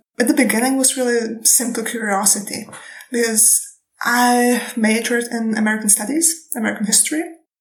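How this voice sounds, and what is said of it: Non-American foreign accent. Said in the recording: “my accent ... I'm not even from the United States”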